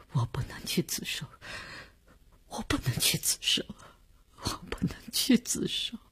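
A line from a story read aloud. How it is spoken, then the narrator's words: Sobbing, near breakdown, repeating. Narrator (Chinese): 李大公哭得悲悲切切，他的精神看上去已经濒于崩溃，只是不停地重复着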